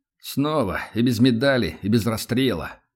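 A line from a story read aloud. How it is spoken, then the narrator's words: Dejected lament. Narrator (Russian): упавшим голосом сокрушается Влад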